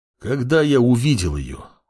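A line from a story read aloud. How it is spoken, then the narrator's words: Sighed. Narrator (Russian): вздохнул паладин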